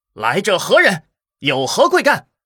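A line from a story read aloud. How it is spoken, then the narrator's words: Loud shout. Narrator (Chinese): 齐武大声喝道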